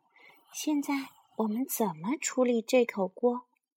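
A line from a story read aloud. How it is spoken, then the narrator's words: Loud-voiced wicked cackle. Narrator (Chinese): 大嗓门咯咯的坏笑，呵呵呵呵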